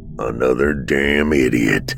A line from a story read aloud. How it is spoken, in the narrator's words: Elwood grumbled between bites of pizza